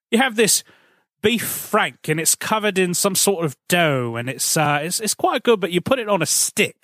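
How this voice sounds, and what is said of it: Put-on British accent. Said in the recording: “Can you do a British accent?”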